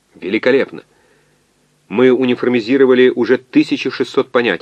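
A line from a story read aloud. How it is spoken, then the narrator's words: Plain. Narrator (Russian): ответил кибернетик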